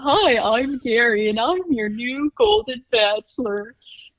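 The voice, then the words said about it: Goofy Barney-like character voice. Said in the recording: “he kind of has like that Barney voice”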